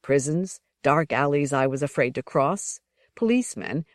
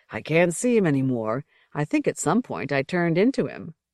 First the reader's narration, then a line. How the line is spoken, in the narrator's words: He laughed and said aloud